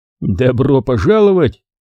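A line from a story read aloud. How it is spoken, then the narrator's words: Snorting. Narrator (Russian): хмыкнул Гаррет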